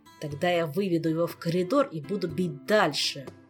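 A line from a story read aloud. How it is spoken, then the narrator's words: Growled. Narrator (Russian): прорычал Кантер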